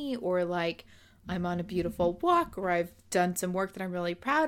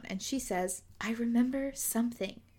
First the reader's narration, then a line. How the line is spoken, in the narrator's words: she whispered